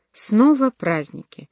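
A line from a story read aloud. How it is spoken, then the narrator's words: Exclamation. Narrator (Russian): воскликнула Лукреция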